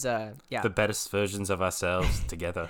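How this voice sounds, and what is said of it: Poor imitation of another person's accent. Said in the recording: “That's a bad accent. We did not do well with that. ... We butchered Matthew Kelly.”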